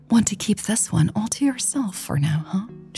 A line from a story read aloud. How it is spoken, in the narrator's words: She whispered